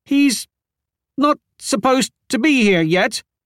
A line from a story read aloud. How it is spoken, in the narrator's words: Kita stammered